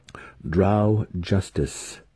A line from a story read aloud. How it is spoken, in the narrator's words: Zack said coldly